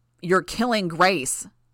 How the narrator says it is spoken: Tecton bellowed at the sky

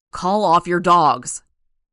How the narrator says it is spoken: Brian shouted

